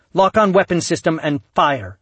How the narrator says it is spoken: barked Kat

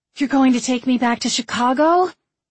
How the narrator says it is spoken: She said, gasping in exaggerated joy

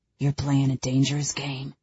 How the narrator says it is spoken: he rasps out

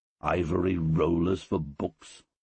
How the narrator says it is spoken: I muttered

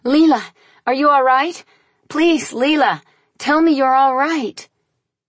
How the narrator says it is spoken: since Leela still showed no signs of life, I shrieked

